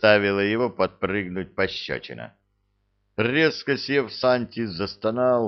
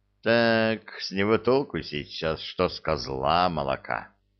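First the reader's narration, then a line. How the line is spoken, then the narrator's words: Heavy sigh. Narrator (Russian): Тяжело вздохнул Эльдар, укоризненно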